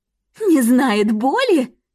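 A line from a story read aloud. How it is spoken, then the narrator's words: Laughing through teeth. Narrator (Russian): Сквозь смех процедила она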